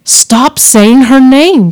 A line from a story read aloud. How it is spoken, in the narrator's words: she pleaded